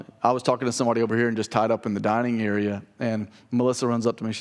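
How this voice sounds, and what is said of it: Usual voice. Nothing is said of it.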